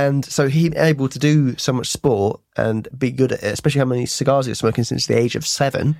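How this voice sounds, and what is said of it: Usual voice. Nothing is said of it.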